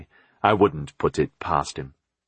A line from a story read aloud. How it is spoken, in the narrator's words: Richard said grimly